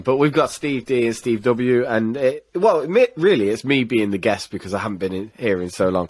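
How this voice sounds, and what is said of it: Very deep, rough sick-sounding voice. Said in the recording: “I am very, very ill. I've just realised my voice is like Barry White again.”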